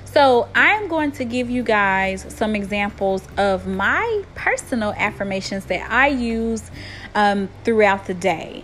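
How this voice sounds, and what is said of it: Southern country twang. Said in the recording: “I am from Tennessee. I have a very country twang in my talk”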